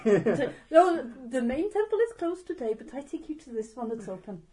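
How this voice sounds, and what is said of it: Unconvincing put-on Thai accent. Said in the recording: “That's not a very Thai accent. ... It's not very Thai accent. ... It definitely wasn't a Thai accent.”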